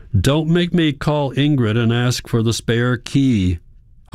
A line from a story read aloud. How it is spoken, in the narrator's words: Hans shouts